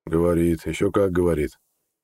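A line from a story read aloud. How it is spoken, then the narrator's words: Gruff grumble. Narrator (Russian): буркнул лекарь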